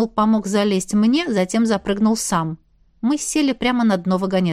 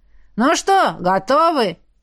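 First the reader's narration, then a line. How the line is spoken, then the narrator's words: Shout. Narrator (Russian): крикнул Карк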